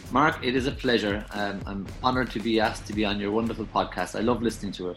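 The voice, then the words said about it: Melodic Irish accent. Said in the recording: “the people from Ireland has the best accent ever... the Irish accent... It's quite melodic... we speak like we're singing”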